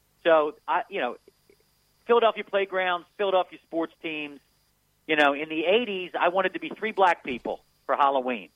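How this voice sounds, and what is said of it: Philadelphia accent. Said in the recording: “I'm from Philadelphia... your audience is going to hear the accent for an hour”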